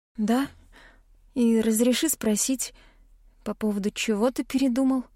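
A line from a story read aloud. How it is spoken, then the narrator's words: Hoarse question. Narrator (Russian): спрашиваю я, поражаясь тому, насколько хрипло звучит мой голос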